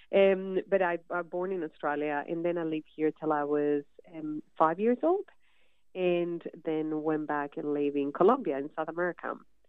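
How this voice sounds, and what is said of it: English with a Colombian accent. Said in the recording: “I have to always explain kind of the accent every day”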